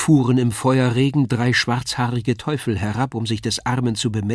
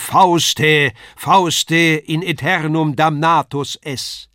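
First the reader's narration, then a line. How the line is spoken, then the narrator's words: Thunderous voice from above. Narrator (German): Von oben ruft eine Donnerstimme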